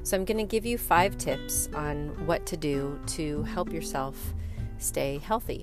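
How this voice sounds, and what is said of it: Congested voice from a cold. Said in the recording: “I have a cold. ... I have been battling a cold for about a week now”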